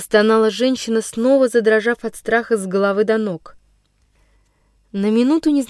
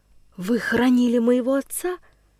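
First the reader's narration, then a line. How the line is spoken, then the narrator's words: Barely audible dejected question. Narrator (Russian): Едва слышно осведомилась Вихрова упавшим голосом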